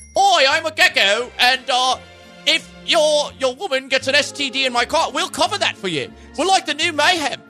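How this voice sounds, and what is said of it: British-accented impression of the GEICO gecko. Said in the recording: “why did you sound so much like him? ... probably like a 30% correct impersonation. It was just the British accent”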